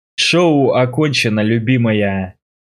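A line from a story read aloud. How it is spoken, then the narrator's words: Growled. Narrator (Russian): Прорычал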